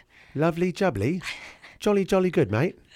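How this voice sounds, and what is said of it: Put-on British accent. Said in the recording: “I'm British ... That's pretty good, actually. ... My mom loves British accents. We do it a lot.”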